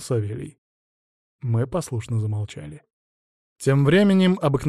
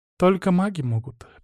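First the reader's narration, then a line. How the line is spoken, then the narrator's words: Sad smile. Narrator (Russian): печально улыбнулась она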